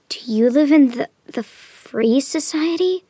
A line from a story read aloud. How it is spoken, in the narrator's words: Amanda whispered through the wall, trembling in the downpour